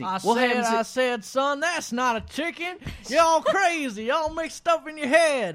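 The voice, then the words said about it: Put-on Southern American accent. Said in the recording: “super realistic, ... high quality ... Southern accents. ... Today's was Southern accents.”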